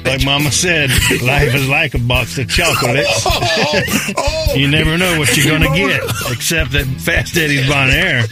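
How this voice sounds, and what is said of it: Forrest Gump character voice impression. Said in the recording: “my best Forrest Gump impression”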